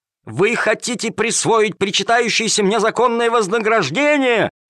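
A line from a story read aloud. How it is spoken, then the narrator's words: Yelling while struggling. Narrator (Russian): вопил Калимер, вырываясь из рук жандармов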